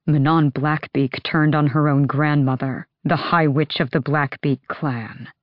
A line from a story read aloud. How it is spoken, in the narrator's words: Adian said, his voice dropping to a dangerous growl